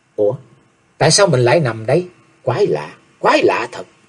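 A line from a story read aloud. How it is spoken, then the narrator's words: Puzzled muttering. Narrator (Vietnamese): Chàng lẩm bẩm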